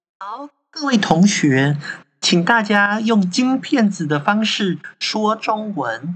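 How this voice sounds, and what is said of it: Imitated classroom teacher Mandarin accent. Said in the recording (Chinese): “你可以学一下你上课的口音吗？ ... 我觉得你发音退步了，跟那时候考检定考的时候完全不一样。”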